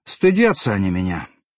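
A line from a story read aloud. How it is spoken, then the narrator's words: Sad. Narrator (Russian): печально объяснил брызжак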